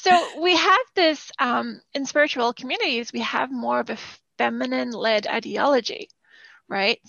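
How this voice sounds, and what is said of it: Strained, fading voice. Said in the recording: “I'm losing my voice a little bit there.”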